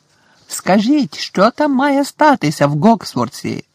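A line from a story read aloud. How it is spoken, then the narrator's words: Shouting from a window. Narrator (Ukrainian): закричав з вікна Фред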